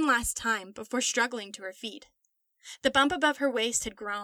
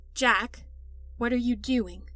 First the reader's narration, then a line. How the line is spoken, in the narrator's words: said calmly